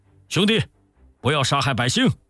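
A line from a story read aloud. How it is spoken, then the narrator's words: Hurried call. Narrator (Chinese): 卢俊义连忙叫住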